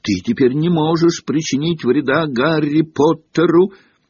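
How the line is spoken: Shouted. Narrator (Russian): Добби крикнул ему

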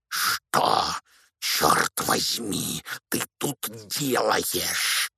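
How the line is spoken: Hoarse, through clenched teeth. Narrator (Russian): прохрипел дядя Вернон сквозь стиснутые зубы

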